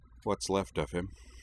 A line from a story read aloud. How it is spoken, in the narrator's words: Utena added softly